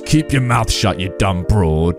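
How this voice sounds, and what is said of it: Growling gruff old man voice. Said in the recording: “growls ... He growled”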